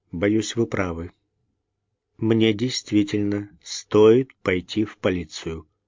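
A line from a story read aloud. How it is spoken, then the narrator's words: Gloomy. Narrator (Russian): мрачно ответил он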